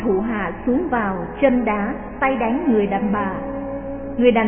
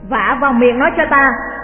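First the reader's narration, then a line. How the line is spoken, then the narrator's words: Old man's furious shout. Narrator (Vietnamese): Lão Đinh tức quá quát lớn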